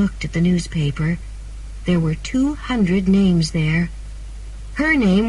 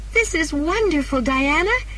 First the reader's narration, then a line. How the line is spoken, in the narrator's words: she said happily